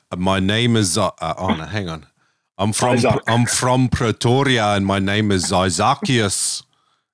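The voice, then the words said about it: Put-on South African accent. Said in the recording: “how bad my consistent jokes and accent are ... you actually get pretty close. I wouldn't quite call it Leonardo DiCaprio on Blood Diamond ... I've got to Dutch out my name a bit”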